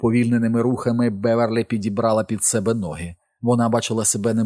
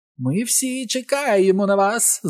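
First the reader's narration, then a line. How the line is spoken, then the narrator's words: Witch's shriek. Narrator (Ukrainian): заверещала відьма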